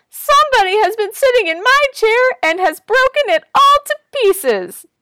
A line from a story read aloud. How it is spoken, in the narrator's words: the wee little bear cried